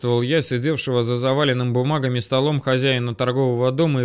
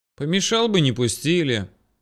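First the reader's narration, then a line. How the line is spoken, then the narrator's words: Joyless wry smirk. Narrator (Russian): не особо весело усмехнулся Ян Карлович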